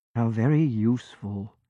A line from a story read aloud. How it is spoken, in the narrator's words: John murmured, half to himself